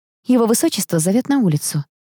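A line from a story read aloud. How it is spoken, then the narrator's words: Sigh. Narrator (Russian): вздохнула я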